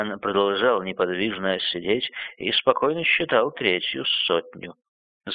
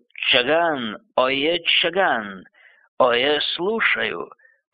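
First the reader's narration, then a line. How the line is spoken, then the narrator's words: Low hoarse roar. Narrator (Russian): Низким хриплым голосом Каган проревел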